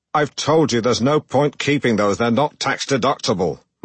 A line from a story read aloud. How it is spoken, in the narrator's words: thundered